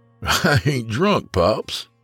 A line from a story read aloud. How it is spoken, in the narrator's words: Smallmouth chuckled